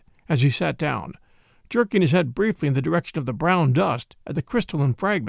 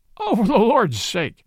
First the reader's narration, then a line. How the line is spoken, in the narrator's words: cried the police detective, laughing